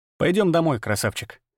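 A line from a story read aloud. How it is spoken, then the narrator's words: Plain. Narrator (Russian): сказал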